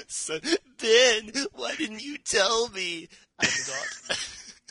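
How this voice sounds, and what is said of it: Imitates a Star Wars character. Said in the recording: “That's unfortunately a pretty good imitation”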